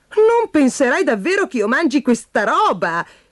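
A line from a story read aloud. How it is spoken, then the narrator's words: Exclaimed. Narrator (Italian): esclamò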